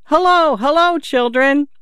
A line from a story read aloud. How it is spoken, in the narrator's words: He shouted